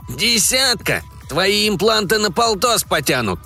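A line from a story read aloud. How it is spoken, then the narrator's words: Grumbling. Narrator (Russian): заворчал Бабель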